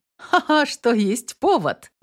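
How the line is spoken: Laughing. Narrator (Russian): засмеялась Инесс

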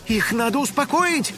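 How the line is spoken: Shout. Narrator (Russian): закричала Кудряшка

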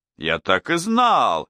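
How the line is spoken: Exclaimed. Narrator (Russian): воскликнул Лемей

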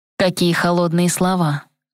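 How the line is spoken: Sigh. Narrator (Russian): вздохнул

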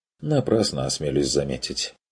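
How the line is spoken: Sighing. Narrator (Russian): вздохнул тот

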